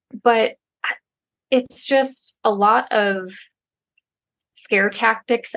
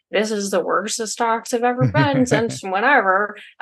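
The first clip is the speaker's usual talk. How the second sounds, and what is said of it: Put-on accent. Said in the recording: “I don't know why I chose that accent”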